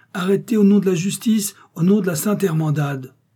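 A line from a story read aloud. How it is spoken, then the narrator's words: Exclaimed. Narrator (French): s'écria-t-il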